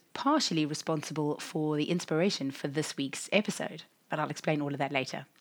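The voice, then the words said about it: Raspy, husky voice. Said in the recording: “my raspy, husky voice”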